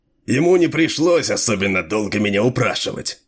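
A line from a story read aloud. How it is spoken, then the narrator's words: Chuckling. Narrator (Russian): хохотнул Дилуло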